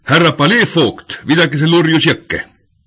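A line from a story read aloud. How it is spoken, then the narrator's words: Indignant outraged shout. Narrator (Estonian): Säherdusest jultumusest nördinuna hüüdis ta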